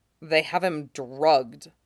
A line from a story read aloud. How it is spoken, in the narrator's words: he says grimly